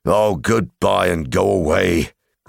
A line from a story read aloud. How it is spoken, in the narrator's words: grunted the dwarves, all the more angry because they were really filled with dismay at losing him